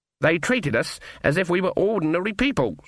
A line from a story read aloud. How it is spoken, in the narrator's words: said Granny in a shocked voice